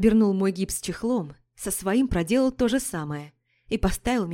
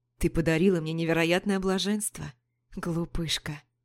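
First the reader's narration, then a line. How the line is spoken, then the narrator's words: Whispered into neck. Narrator (Russian): прошептал Пижон мне куда-то в шею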